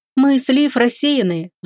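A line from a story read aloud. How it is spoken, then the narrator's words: Sighing. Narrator (Russian): вздохнула Смирнова-старшая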